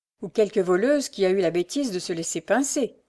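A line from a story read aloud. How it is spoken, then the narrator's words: Sneering beggar woman. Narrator (French): ricana la mendiante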